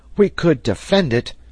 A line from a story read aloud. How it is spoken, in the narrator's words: cried Herbert